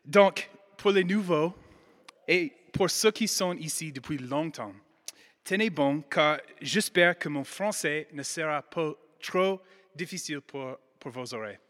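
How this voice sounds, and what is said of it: American accent in French. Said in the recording (French): “mon bel accent. Je suis américaine”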